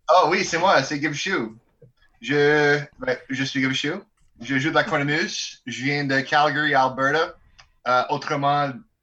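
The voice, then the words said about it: French with an Albertan accent. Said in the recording (French): “ce bel accent euh, albertain-là”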